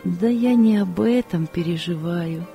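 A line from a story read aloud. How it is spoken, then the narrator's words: Sad woman. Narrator (Russian): печально сказала женщина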